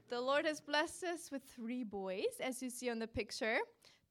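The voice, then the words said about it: German accent. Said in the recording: “if you hear an accent in my voice and like, what is that? It's German. I'm from Germany.”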